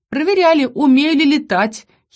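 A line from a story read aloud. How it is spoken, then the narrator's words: Giggling. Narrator (Russian): хихикнула я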